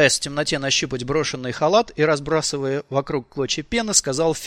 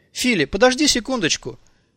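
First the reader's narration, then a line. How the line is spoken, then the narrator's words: Exclamation. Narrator (Russian): воскликнула Николь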